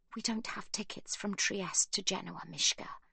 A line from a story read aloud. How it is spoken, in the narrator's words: Sibby whispers